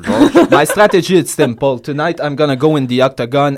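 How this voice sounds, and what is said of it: Imitates another person's voice speaking English. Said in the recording (French): “je vais faire une imitation de toi qui parle en anglais”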